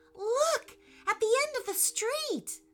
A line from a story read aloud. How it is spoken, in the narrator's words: said Eli excitedly